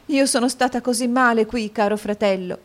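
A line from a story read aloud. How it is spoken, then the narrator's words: Sobbed. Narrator (Italian): singhiozzò la povera Caterina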